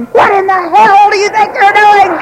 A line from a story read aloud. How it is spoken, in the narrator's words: I'd scream